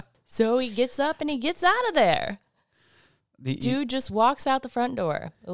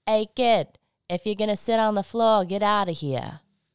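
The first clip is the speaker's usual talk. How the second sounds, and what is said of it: Strong Boston North Shore accent. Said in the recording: “in, like, the strongest Boston North Shore accent”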